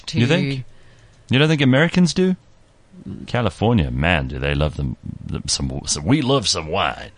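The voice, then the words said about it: Texan, southern accent, then New York. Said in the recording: “I think I used a Texan accent there. ... That went a little southern there. ... And then it went a bit New York at the end.”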